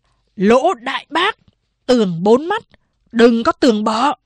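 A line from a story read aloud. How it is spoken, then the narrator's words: Angry roar. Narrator (Vietnamese): Sa Nguyệt Lượng gầm lên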